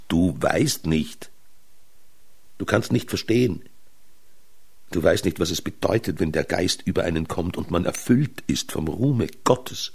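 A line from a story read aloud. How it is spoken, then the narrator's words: Exclaimed. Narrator (German): Er aber rief aus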